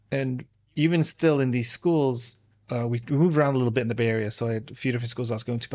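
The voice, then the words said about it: Slight English accent. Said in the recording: “you can tell slightly from my accent that comes and peaks out. I'm born in England. I was born in London”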